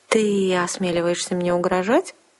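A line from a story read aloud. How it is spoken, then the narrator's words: Unsure indignation. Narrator (Russian): Как-то неуверенно возмутилась Лириена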